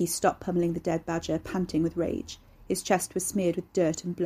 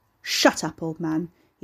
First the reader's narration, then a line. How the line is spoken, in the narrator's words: he snarled